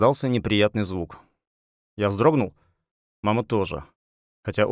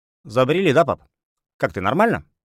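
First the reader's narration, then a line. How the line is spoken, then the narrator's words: Cheerful question. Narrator (Russian): бодро спросил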